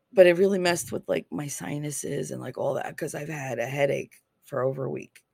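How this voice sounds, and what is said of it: Hoarse voice. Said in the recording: “I know I sound really hoarse”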